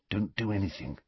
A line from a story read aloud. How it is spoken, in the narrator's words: Harry muttered